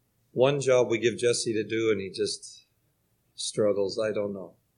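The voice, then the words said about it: Slightly strained voice. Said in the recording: “my voice is still a little strained”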